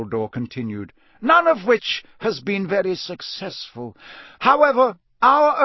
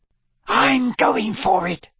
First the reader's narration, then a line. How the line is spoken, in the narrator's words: Fred Weasley hissed down the table, his face lit with enthusiasm at the prospect of such glory and riches